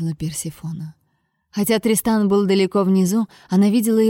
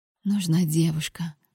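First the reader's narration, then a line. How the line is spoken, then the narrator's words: Whispered. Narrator (Russian): прошептала ночи Персефона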